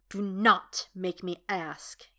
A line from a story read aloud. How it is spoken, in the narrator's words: he snarls